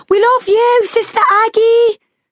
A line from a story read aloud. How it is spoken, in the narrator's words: someone screamed